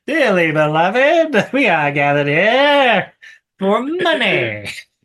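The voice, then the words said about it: Jon Lovitz impression. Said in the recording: “We should have John Lovitz officiate our next wedding.”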